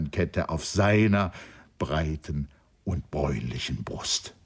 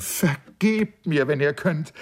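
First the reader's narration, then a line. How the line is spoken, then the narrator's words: Calling out. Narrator (German): rief sie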